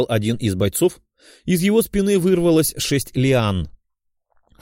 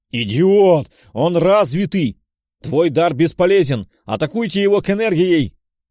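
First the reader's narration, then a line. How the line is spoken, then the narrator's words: Roaring. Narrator (Russian): взревел командир отряда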